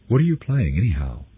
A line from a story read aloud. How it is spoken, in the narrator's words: Sizilli asked